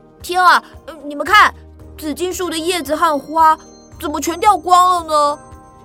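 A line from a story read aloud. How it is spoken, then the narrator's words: Sudden shout. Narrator (Chinese): 突然 大叫了起来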